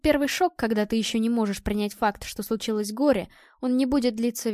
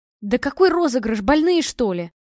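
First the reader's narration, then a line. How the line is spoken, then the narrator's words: Angry blurt. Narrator (Russian): зло выпалила Ольга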